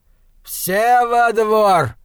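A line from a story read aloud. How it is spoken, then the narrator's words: Shouting. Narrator (Russian): кричал он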